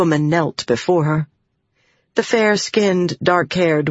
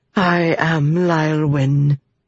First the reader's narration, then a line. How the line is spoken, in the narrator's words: she said in an unmistakable accent